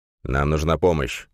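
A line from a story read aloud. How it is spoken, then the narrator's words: Sharp. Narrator (Russian): довольно резко проговорил Григорян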